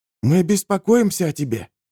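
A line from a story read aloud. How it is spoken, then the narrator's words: Young man whispering. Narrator (Russian): шепотом говорил юноша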